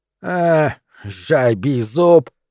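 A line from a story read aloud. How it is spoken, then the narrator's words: Angry snap, old hag. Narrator (Russian): сердито огрызнулась корга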